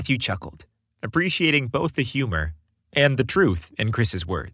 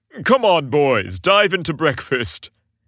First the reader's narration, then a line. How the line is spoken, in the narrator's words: Santa boomed jovially